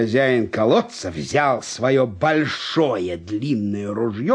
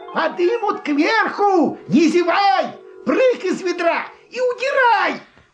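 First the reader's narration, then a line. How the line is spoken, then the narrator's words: Shouting down a well. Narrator (Russian): крикнул вниз братцу лису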